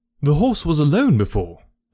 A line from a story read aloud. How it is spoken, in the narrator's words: cried